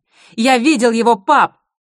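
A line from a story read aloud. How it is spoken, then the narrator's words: Shouted. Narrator (Russian): крикнул Юстас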